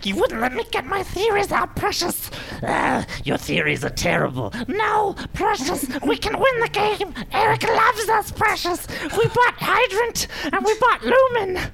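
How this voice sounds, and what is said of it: Gollum character voice impression. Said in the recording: “your best Gollum impression ... And that's Gollum.”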